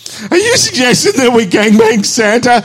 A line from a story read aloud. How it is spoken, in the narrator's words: Heather asks, laughing so hard she snorts